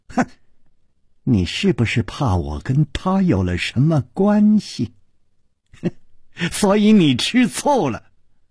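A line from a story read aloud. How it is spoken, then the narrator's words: Sly teasing laugh. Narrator (Chinese): 宫南燕不怀好意地笑着说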